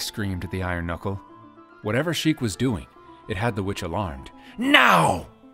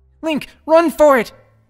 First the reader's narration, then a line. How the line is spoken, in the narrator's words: Navi cried